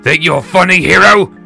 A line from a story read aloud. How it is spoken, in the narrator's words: the baker hollered, spittle flying from his mouth